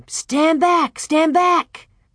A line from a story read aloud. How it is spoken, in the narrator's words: everybody was shouting